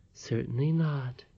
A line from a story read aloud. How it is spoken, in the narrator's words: returned the voice, which was thin and quavering